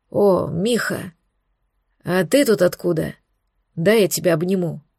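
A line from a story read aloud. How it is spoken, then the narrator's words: Exhaling. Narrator (Russian): Алекс выдохнул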